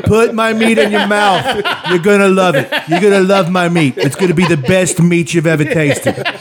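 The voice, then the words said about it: Flawless Donald Trump impression. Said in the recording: “Your Trump impression when you watch this stuff is fucking flawless.”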